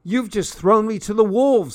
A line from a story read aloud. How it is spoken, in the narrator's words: I shouted